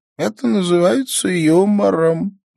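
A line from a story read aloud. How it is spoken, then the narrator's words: Sighing. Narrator (Russian): вздохнула Эвна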